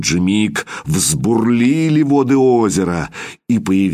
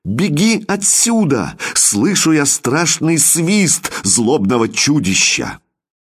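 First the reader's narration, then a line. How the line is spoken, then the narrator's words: Sudden exclamation. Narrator (Russian): внезапно воскликнула царская дочь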